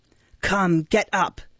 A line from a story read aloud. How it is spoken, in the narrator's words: said the man roughly